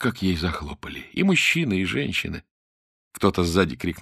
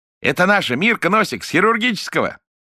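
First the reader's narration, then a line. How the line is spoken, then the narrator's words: Laughing. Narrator (Russian): Смеялся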